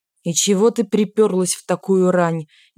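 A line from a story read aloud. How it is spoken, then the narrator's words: Displeased mutter. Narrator (Russian): недовольно буркнула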